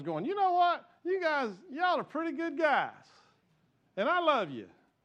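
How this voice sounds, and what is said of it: Put-on West Texas accent. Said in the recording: “God had a West Texas accent”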